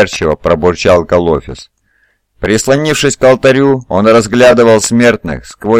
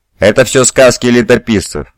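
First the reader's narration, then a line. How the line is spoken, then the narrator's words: Snapped. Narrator (Russian): огрызнулся Калофис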